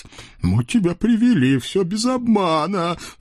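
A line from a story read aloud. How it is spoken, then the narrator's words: Sobbing. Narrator (Russian): всхлипывая, поддержал Хряк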